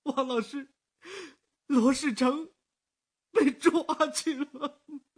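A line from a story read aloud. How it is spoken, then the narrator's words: Crying out. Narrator (Chinese): 那个人便哭出声来了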